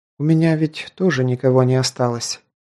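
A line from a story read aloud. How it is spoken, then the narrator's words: Quiet. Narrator (Russian): тихо произнесла Ди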